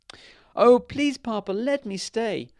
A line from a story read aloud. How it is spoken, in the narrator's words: cried the princess